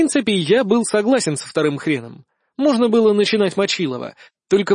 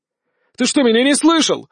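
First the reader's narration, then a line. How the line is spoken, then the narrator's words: Shouting. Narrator (Russian): закричал Иван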